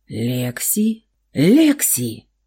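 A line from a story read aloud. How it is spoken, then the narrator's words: Hesitantly joyful familiar voice. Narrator (Russian): Раздался смутно знакомый, неуверенно радостный голос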